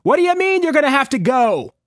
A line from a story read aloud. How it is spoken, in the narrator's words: yelled over the shrieks of artillery